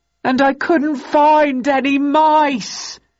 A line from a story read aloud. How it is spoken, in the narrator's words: he howled